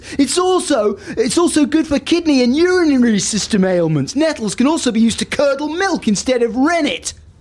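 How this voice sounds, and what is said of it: Mocking put-on reading voice. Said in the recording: “you're putting on that mocking accent”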